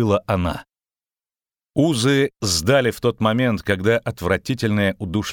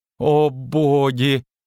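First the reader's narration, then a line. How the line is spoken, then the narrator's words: Astonished moan. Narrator (Russian): изумленно простонал Лютик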